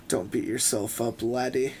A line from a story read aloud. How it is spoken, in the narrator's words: Russell laughed through stained grinning teeth